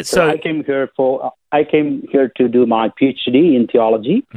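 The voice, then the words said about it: South Indian accent. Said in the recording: “where's your accent yeah. from? ... I'm basically from India, the southern part of India”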